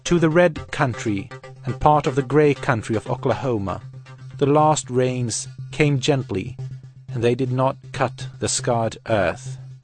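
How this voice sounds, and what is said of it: Speaks with a foreign accent. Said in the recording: “my funny accent”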